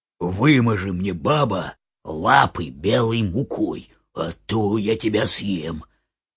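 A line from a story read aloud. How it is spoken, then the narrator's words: Wolf's growl. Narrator (Russian): Волк зарычал на нее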